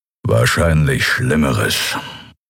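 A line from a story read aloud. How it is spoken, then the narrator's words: Growling. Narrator (German): knurrte Kero hinter ihnen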